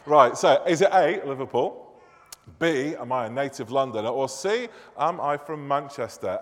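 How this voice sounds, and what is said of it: Harsh northern English Manchester accent. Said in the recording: “My harsh northern accent is pervading all that I do... from God's second city, Manchester”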